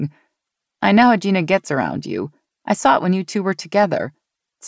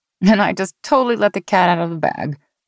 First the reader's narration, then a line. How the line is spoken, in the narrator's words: Mary said with another laugh